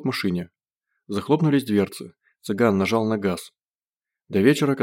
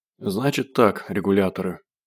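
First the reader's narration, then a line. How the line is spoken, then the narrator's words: Hoarse. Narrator (Russian): сказал он хрипло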